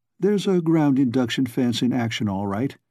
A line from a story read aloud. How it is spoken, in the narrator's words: said Calhoun calmly